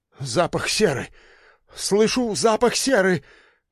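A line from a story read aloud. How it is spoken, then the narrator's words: Commandant babbling. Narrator (Russian): Где-то у дальней стены пролепетал комендант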